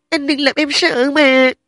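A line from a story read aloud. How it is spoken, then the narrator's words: Sobbing. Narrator (Vietnamese): Trình Lâm đã khóc nức nở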